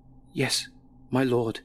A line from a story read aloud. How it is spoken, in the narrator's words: I said shakily